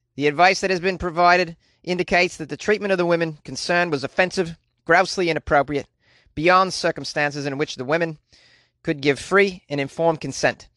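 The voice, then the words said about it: Terrible put-on Australian accent. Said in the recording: “That was a terrible Australian accent.”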